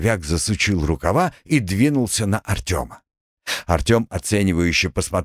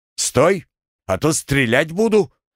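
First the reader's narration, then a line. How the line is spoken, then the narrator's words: Sudden shout. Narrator (Russian): неожиданно сам для себя прокричал Артем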